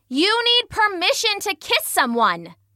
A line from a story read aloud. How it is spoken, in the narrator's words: Medusa was shouting